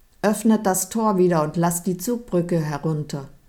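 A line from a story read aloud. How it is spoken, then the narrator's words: Calling out. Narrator (German): rief Kunibert zu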